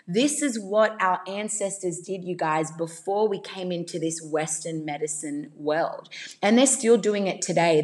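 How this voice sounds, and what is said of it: Australian accent. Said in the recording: “hear my accent, obviously I am Australian”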